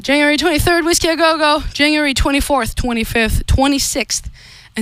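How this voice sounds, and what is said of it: Slightly out of breath. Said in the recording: “we're live, so I'm a little bit out of breath.”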